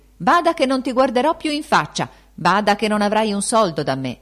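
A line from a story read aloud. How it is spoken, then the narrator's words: Shouting. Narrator (Italian): gridandogli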